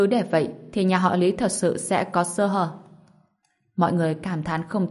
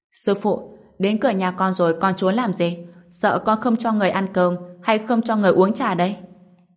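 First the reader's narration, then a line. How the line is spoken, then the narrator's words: Shouting. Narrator (Vietnamese): Lý Thanh Nguyệt cất giọng hét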